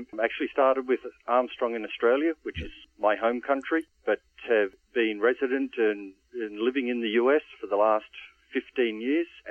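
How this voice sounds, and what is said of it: Slight accent. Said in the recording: “just a little twinge of an accent”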